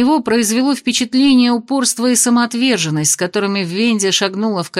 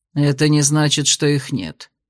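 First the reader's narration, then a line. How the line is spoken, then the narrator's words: Stubborn grunt. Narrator (Russian): буркнул Ладенье из чистого упрямства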